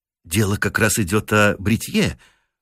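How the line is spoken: Timid remark. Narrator (Russian): робко уронил Бирд

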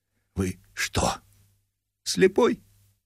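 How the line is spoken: Oppressive whisper. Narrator (Russian): сказал Яков Иванович гнетущим шепотом

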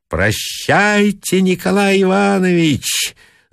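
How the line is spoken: Shouting. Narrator (Russian): закричала Маргарита

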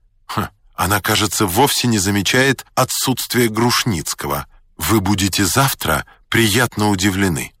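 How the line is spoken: Plain. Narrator (Russian): сказал я

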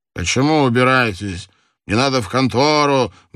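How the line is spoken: Drunken mumbling. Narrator (Russian): бормотал в ответ чей-то пьяный голос

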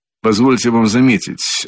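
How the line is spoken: Dry reply. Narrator (Russian): отвечал он сухо

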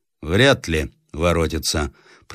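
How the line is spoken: Rough interrupting voice. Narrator (Russian): прервал грубым голосом один высокий офицер

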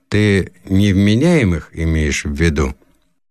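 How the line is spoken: Gloomy question, father. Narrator (Russian): Отец мрачно спросил

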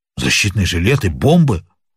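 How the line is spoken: Two voices exclaiming together. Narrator (Russian): воскликнули одновременно оба негодяя

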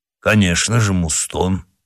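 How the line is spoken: Calm. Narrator (Russian): ответил спокойно Портос

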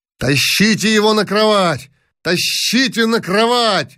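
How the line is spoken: Shouting. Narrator (Russian): закричал князь Яшвиль

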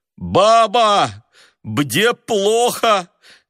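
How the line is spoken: Shouted with stuffy nose. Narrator (Russian): крикнул он сквозь насморк

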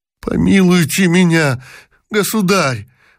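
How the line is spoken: Exclamation. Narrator (Russian): воскликнул Аргамаков

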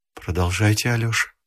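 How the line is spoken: Quiet, tender. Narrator (Russian): тихо сказала Зиночка

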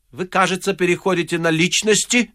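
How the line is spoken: Cold remark. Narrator (Russian): заметил Остап холодно

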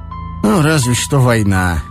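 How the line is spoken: Glum agreement. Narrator (Russian): уныло согласился Ромашов

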